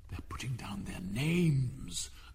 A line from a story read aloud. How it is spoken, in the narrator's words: the Gryphon whispered in reply